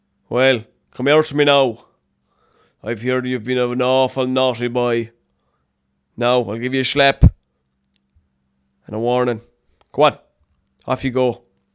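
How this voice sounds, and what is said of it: Put-on Irish police officer accent. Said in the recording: “they'll put on the accents as well”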